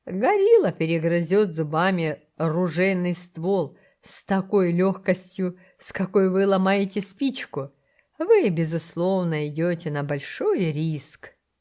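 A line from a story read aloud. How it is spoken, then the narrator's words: Said after laughing. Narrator (Russian): Хантер Первый перестал смеяться и сказал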